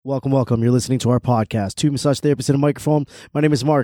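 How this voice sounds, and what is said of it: Voice not fully recovered. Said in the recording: “My voice is still not fully back”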